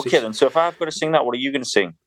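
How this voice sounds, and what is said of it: Northern English accent with a burr. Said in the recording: “your sort of beautiful, beautiful burr. Do you call it a burr in North your accent? ... I don't think that burr does it justice.”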